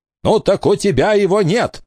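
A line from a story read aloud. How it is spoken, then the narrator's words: Barked. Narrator (Russian): рявкнул Элистер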